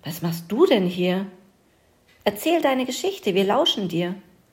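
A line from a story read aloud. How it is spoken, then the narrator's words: Little mouse calling out. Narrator (German): rief ein Mäuschen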